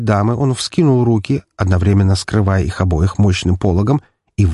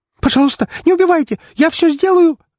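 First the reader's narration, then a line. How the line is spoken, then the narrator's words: Shrieked. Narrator (Russian): завизжала она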